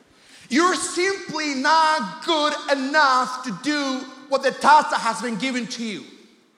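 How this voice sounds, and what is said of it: Thick accent. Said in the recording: “Your accent is pretty thick.”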